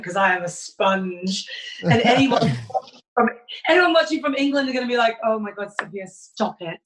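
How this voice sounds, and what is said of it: British English accent. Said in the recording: “her cool accent, not our dorky one ... I'm going to pick up a British accent”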